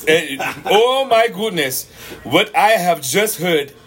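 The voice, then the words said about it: Put-on African accent. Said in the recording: “in my African voice ... In your African voice.”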